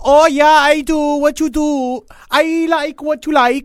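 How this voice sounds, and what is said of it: Put-on Dutch accent. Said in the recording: “This is my Dutch accent. ... Yeah, it was very good. ... You don't know what Dutch people sound like.”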